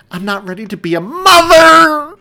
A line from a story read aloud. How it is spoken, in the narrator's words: the end of the woman's sentence devolved into a scream as another contraction crashed over her